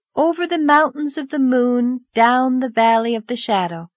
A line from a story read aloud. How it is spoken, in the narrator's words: answered dreamily